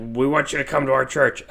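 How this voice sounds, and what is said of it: Imitates another person's voice. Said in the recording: “this is a horrible JD impression.”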